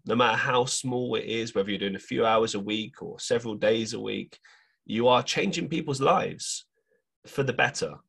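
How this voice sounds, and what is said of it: Hoarse, failing voice. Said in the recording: “My voice is just dying by the minute.”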